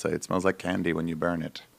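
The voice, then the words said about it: Imitated strong Canadian accent. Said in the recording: “you did an accent... He's Canadian. He's like weirdly Canadian.”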